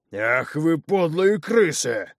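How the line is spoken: Furious roar. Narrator (Russian): Едва не обманутый воин взревел, выходя из себя

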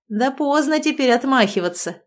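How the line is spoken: Short laugh. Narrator (Russian): хохотнул он

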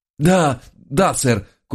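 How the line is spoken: Labored wheeze. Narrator (Russian): кое-как прохрипел я

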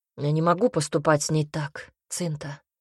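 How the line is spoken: Quiet reply. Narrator (Russian): ответил Альберт негромко

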